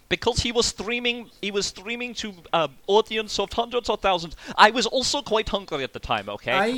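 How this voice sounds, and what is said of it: Comedic Dracula vampire accent. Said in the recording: “do that accent ... I am comedy Dracula”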